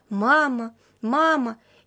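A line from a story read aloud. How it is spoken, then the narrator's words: Child's instinctive cry. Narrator (Russian): инстинктивно закричал мальчик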